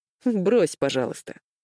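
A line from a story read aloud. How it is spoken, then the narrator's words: Laughing interruption. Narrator (Russian): перебил ее брат, смеясь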